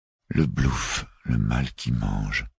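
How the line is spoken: Mechanical murmur. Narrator (French): murmura machinalement Tixou

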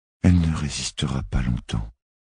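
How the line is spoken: Despairing whisper, young woman. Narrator (French): souffla la jeune femme, le désespoir dans l'âme

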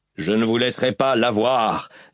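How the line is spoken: Screaming. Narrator (French): hurla Dalinar

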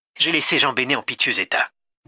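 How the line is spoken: Plain. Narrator (French): dit-elle

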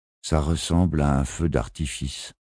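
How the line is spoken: Dull flat voice. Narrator (French): commenta Marty d'une voix morne

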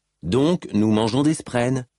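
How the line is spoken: Neutral voice. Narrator (French): dit Cal d'une voix neutre

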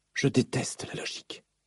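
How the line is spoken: Whispering. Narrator (French): chuchota-t-elle

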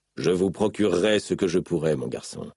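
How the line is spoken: Plain. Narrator (French): dit Dalinar

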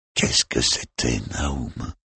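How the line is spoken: Murmured. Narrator (French): murmura-t-il

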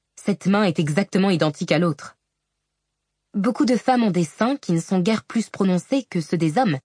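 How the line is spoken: Curt sharp retort. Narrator (French): rétorqua Shallan d'un ton cassant

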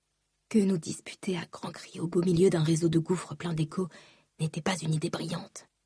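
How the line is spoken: Nervous murmur. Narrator (French): murmura-t-elle, nerveuse

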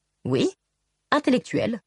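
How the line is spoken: Casual tone. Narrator (French): dit-il d'un ton désinvolte

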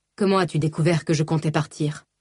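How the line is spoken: Insistent question. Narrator (French): s'enquit Balad d'une voix insistante

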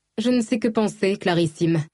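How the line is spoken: Plain. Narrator (French): répondit Inadara

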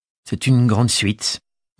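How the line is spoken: Stammering. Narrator (French): bredouilla Anastasia

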